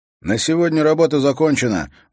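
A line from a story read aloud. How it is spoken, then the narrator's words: Loud. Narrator (Russian): громко сказал он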